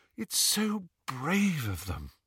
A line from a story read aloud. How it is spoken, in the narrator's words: sighed Hermione admiringly